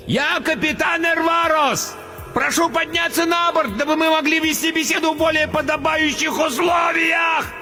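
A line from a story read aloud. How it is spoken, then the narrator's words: Roaring over blizzard. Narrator (Russian): Проревел, перекрывая вой метели, толстяк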